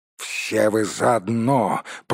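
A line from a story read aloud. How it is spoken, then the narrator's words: Growl. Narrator (Russian): прорычал Торин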